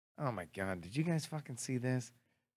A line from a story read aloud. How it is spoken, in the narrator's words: say in a very serious tone